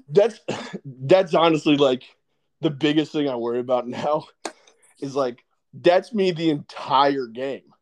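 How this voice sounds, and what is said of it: Hoarse, strained voice. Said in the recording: “You lost your voice. ... I'm going to lose my voice again. ... My voice, like, goes like that. It's going to get real bad.”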